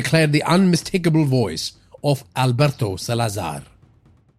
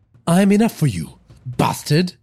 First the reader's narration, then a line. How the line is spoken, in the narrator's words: Naz countered, her voice laden with defiance